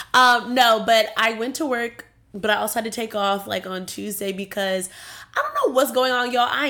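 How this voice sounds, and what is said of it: Nasal, congested voice from a cold. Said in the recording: “I sound a little nasally. It's because, you know, I got a little sicky this week.”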